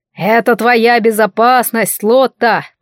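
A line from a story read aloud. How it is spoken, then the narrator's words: Booming rumble. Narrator (Russian): прогудел Морис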